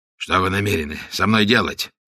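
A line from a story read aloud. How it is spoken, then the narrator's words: Hoarse question. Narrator (Russian): спросил, наконец, испанец хриплым голосом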